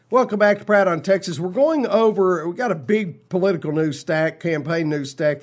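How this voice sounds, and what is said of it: Authentic Texas accent. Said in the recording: “It's the real talk of Texas with the authentic accent thrown in free.”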